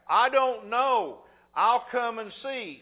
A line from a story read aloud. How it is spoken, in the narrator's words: The 94-year-old hollered back